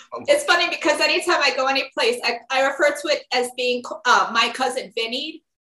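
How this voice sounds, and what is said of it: New York accent. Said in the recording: “pure New York accent”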